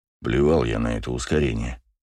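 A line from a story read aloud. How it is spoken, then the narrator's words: Grumbled. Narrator (Russian): проворчал Браво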